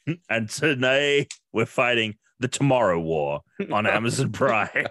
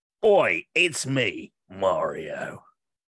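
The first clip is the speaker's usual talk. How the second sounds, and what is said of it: Put-on British accent. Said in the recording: “a British accent”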